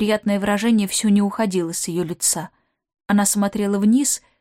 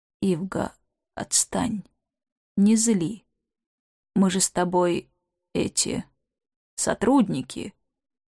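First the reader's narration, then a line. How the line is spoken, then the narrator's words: Unusually quiet. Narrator (Russian): сказал непривычно тихо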